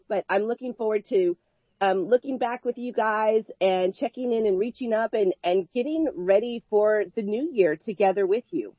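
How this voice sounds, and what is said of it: Funky, slightly off voice. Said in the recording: “battling off a little bit of a cold today ... my voice is kind of funky ... my voice is a little bit off”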